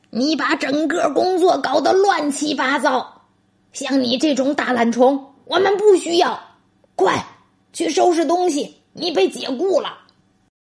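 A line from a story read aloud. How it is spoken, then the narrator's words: Angry roar. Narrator (Chinese): 管理员气冲冲的朝大熊吼道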